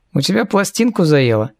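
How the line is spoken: Snide question. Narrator (Russian): Ехидно поинтересовался Эриас

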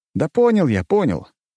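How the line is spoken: Dismissive hmph. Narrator (Russian): хмыкнул я

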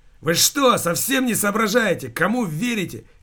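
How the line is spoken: Shouting. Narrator (Russian): кричал Алексей

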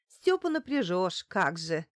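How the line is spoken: Scoffing snort. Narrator (Russian): фыркнула Лариса

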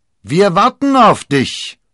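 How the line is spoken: Loud call. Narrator (German): rief Athos, laut genug, dass der Kardinal es hören musste

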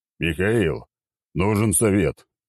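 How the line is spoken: Deep bass voice. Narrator (Russian): пробасил Черномор

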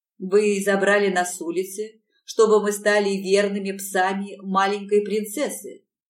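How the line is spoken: Mocking voice. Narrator (Russian): Голос его звучал насмешливо

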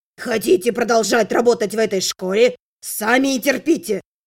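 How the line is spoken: Barked. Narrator (Russian): рявкнул маг

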